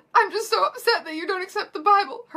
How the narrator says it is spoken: Hermione sobbed femininely

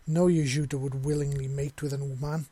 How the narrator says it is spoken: Shena exclaimed defiantly

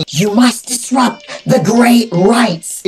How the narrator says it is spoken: the Lernian screams

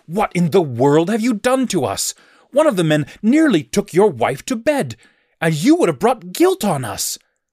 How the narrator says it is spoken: Abimelech exclaimed

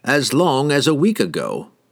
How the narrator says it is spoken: he replied calmly

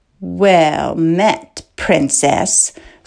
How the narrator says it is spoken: Fleck sneered so quietly only she could hear

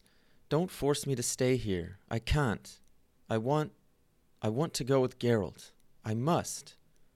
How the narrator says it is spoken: begins Ciri in a broken voice

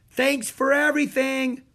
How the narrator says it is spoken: yelled Jack

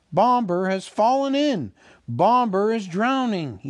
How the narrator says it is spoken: he cried

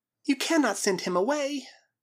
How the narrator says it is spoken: cried the girl

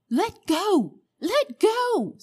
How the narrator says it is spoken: screamed Polly

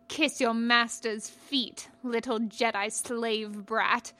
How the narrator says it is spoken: he spat out

